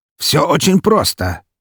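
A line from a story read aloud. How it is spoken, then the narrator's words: Snorting. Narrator (Russian): хмыкнул Павел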